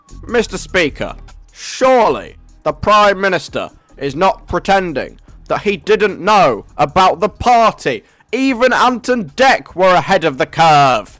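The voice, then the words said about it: Imitates a North London politician's voice. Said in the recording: “I'm gonna get into character. I'm gonna channel a lawyer from North London who's leader of the Labour Party, and I'm going to try and debut my impression, which I think is actually quite good ... Is that just me doing a weird voice, or does that sound a little bit like Keir Starmer?”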